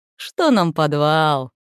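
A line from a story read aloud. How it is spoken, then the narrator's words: Cheerful dwarf reply. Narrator (Russian): весело отозвался кто-то из гномов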